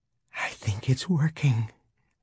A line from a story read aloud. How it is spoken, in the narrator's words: she said softly